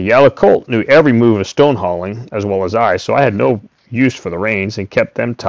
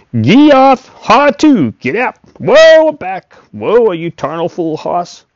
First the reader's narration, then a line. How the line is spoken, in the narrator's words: his hollering